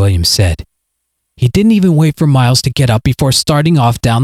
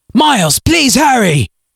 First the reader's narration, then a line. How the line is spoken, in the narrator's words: his father called out